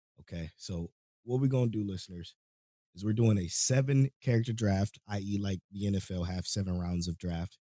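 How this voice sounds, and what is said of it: Weak, fading voice from a cold. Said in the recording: “sorry if my voice is going away. I think I'm catching the cold”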